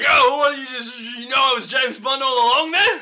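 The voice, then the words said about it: Strong Australian accent. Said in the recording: “Lazenby breaks accent so fucking hard ... really Australian accent.”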